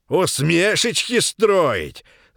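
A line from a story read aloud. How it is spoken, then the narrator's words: Old man shouting. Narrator (Russian): закричал дед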